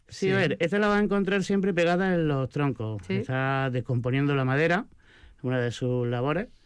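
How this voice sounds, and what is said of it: Non-local Spanish regional accent. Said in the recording (Spanish): “por el acento me notarás que no ... que no eres de Aramayona, sí se ve”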